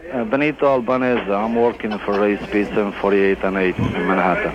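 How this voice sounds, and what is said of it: Italian accent. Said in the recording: “Give me your best Italian accent ... That is an excellent Italian accent.”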